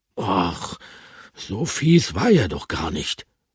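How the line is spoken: Murmured. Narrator (German): murmelte Bertram

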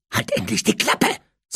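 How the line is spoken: Hissing. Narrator (German): zischte Harry

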